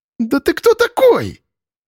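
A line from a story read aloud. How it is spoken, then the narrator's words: Hysterical shriek. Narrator (Russian): Януся истерично взвизгнула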